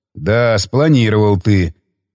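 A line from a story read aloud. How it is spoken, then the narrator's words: Dry snort. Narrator (Russian): хмыкнул он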